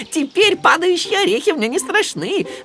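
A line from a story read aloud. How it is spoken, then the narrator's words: Loud laughter. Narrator (Russian): расхохотался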